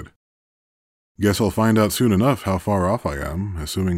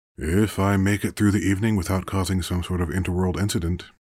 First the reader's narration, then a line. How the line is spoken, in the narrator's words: I said quietly